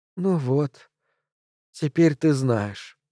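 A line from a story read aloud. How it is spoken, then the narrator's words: Lifeless flat voice. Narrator (Russian): она произнесла совершенно безжизненным голосом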